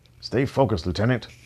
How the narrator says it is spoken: Helmer said sharply to Pickett

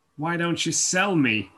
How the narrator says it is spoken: Chris murmured

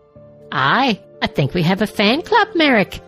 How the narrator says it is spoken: Sabin chuckled

